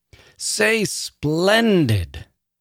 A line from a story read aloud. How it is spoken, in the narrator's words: the woman bellowed once again